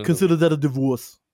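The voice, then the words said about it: Imitates another person's voice. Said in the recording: “Do it in the accent, though, man. You got to do it in the accent. ... Arnold voice. That's Arnold Schwarzenegger.”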